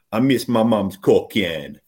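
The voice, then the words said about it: Badly done put-on Caribbean accent. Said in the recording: “this is a really bad accent”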